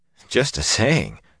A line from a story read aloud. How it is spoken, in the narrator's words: somebody behind him was muttering